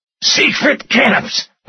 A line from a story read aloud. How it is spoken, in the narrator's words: Rutter gasped